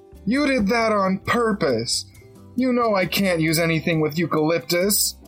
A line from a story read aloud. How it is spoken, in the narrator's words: screeched